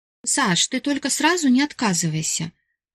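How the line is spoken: Timid. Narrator (Russian): произнесла робко

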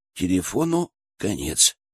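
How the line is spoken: Sad. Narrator (Russian): печально произнес Максим

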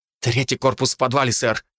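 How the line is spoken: Hurried reply. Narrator (Russian): ответил он также торопливо

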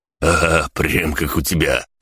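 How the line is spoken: Bald man's chuckle. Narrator (Russian): хохотнул лысый

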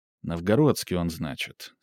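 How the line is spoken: Calm. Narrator (Russian): спокойно продолжал Роман Иванович

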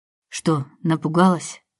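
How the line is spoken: Softened voice. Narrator (Russian): спросила она подобревшим голосом

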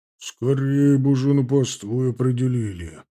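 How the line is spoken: Grumbling. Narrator (Russian): проворчал Ерыгин

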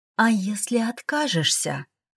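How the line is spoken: Whisper in ear. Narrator (Russian): прошептала она мне на ухо

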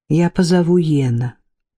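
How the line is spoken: Calm. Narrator (Russian): спокойным тоном продолжила Ан-Софи

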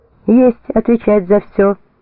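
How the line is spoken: Cheerful, lieutenant. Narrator (Russian): весело лейтенант

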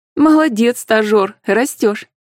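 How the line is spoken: Laughing, mock surprise. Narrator (Russian): Рассмеялась Анфиса и, изображая удивление

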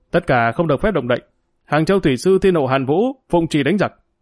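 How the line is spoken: Loud proclamation. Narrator (Vietnamese): Tá Mộc lớn tiếng nói với đám quân dưới thành

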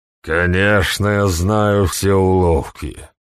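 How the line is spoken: Sour grumble. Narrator (Russian): кисло пробурчал ГМ

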